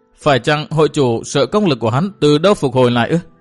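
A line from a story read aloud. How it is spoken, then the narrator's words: Laughing young woman. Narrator (Vietnamese): Thiếu nữ bật cười xòa nói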